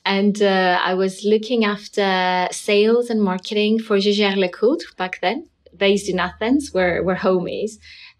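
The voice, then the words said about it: Greek accent. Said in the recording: “I started in Greece, where I come from. That's where the accent is coming from.”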